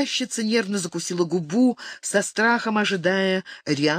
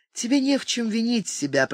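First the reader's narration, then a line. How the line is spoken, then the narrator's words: Soothing tone. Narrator (Russian): проговорила успокаивающим тоном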